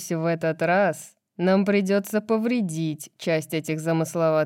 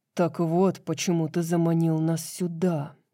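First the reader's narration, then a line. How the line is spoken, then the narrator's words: Indignant growl. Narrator (Russian): прорычал он, возмущенный предложением Брайс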